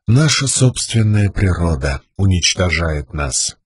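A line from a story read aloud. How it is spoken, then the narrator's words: Stranger speaking quietly. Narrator (Russian): негромко проговорил незнакомец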